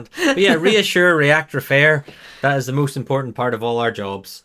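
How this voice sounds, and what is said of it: Accented speech, distinctive R sounds. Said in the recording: “these R words, which I can't say properly with my accent”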